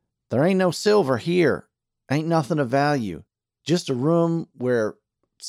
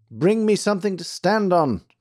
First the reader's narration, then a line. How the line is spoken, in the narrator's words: cried Archie